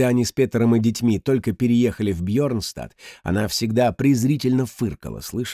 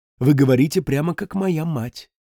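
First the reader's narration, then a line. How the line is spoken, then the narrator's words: Soft remark. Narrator (Russian): мягко заметил он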